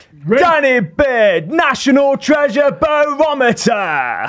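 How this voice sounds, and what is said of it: X Factor announcer voice. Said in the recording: “Shall I try to do it in my best X Factor announcement? ... I actually thought that was a really good X Factor impression ... It just needs to be deeper.”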